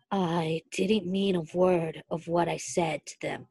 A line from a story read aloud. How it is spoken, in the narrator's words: he murmured wretchedly